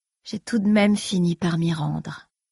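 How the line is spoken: Queen's sighing self-talk. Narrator (French): se dit sa reine en soupirant

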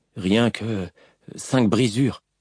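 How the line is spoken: Stammering. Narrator (French): balbutia Im

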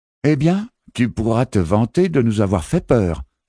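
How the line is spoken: Exclaimed. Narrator (French): s'exclama Alaki, la responsable du car

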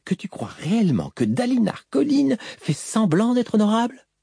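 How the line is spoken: Insistent question. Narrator (French): demanda-t-elle d'une voix insistante

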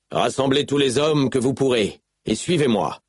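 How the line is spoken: Shouting. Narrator (French): cria-t-il

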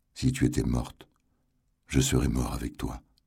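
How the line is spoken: Murmuring. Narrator (French): murmura-t-il

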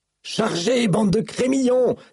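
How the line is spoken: Shouted while running. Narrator (French): s'écria, courant au milieu des rangs de ses soldats

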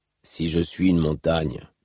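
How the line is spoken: Grumbled. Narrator (French): grommela Rock

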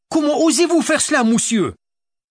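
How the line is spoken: Furious shout. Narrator (French): Arma surgit devant elle et cria, le visage déformé par la colère

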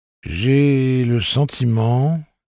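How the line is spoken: Pensive tone. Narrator (French): dit Sylvia Pitston d'un ton pensif

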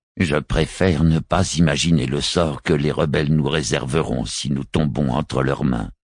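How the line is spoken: Somber murmuring vicar. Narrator (French): murmura le vicaire d'un air sombre

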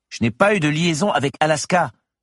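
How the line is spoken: Exclaimed. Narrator (French): s'écria alors Eric

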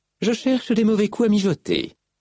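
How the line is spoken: Cheerful reply. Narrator (French): répliqua Malice d'un ton joyeux

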